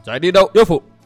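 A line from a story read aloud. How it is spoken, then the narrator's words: Shouted. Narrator (Vietnamese): Lồng theo tiếng quát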